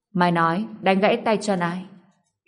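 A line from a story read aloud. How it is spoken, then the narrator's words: Cold voice. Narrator (Vietnamese): giọng nói lạnh lùng vang lên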